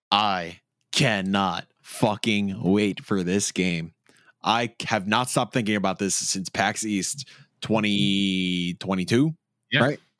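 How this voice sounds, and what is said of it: Heavy New York accent. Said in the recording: “Your New York accent came in real heavy at the end.”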